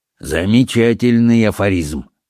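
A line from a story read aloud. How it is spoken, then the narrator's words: Gloomy remark. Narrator (Russian): мрачно заметил сэр Генри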